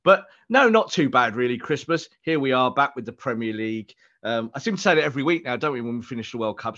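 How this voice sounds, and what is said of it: Ill, rough-sounding voice. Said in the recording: “Got the obligatory Christmas illness ... feeling a bit rough today, so apologies to everyone who can hear it in my voice.”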